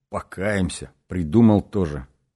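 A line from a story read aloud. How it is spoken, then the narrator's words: Grumbled. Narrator (Russian): проворчал он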